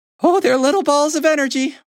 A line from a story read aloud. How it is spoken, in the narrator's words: one of the big hens laughed